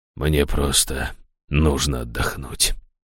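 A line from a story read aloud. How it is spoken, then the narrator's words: Hoarse father. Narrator (Russian): хрипло проговорил отец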